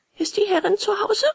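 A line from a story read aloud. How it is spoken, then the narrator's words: Calling upward. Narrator (German): rief Bengele empor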